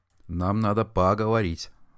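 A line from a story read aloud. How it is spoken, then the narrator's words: Serious voice. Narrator (Russian): сказал серьезным голосом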